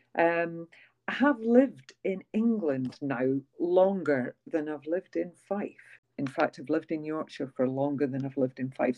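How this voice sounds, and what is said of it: Softened Scottish accent. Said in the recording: “my accent has softened a lot or changed a lot ... you still have a distinctive, recognisable Scottish accent”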